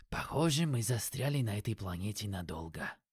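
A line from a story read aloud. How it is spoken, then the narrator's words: Mumbled. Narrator (Russian): пробормотал Юки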